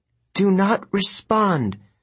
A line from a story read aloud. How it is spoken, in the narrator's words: Artemis groaned